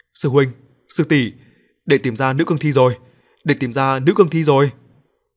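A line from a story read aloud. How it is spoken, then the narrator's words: Joyful shout. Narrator (Vietnamese): Y hét lên, không kìm được sự vui mừng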